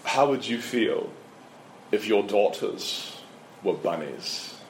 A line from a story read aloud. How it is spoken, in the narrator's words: in his British accent